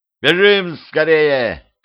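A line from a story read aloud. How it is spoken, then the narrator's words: Shouted. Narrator (Russian): крикнул Петрович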